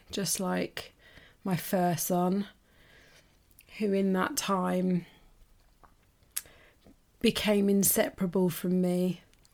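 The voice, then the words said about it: Emotional, choked-up voice. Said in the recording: “Oh, I'm getting emotional”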